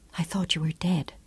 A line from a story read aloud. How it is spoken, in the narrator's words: she whispered